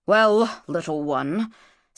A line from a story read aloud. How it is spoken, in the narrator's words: said Nikonk gruffly